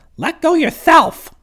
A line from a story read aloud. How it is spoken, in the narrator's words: screamed the monkey